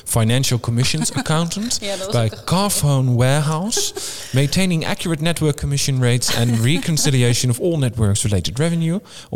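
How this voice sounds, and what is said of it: Put-on British accent. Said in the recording (Dutch): “Om het even in mijn beste Britse accent te proberen.”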